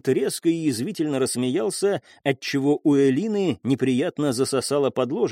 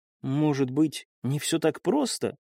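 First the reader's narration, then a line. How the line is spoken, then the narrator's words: Barely audible. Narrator (Russian): еле слышно произнесла Элина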